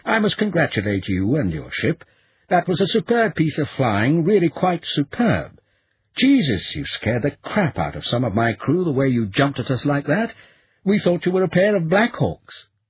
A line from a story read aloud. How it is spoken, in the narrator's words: he said warmly